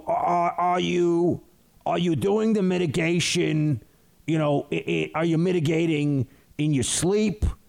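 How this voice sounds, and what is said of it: Imitates another person's voice. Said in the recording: “your Dr. Fauci impersonation cracks me up ... impersonate Dr. Fauci more. It's hilarious.”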